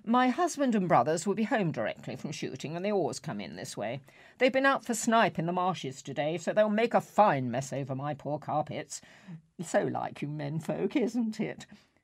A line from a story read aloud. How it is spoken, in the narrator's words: She rattled on cheerfully